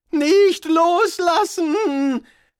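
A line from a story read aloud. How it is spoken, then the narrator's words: Shouted. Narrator (German): schrie Rincewind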